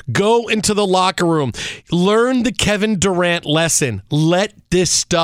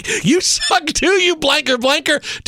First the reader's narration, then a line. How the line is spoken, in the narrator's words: yell back